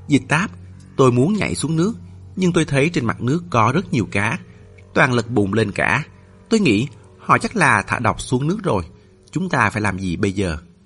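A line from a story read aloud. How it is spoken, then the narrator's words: Low whisper. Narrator (Vietnamese): Hắn hạ giọng thì thào với cô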